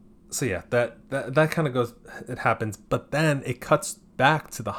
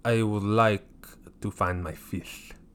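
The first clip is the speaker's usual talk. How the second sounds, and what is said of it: Bad put-on French accent. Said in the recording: “That's my French impression. ... Oh, that was terrible.”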